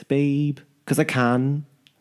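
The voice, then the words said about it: Put-on Liverpool accent. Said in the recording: “Do you want me to do a Liverpool accent ... It's not bad, actually.”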